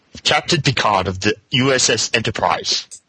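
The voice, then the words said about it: Attempted British accent, Captain Picard impression. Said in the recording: “newly found British accent ... That's not a British accent.”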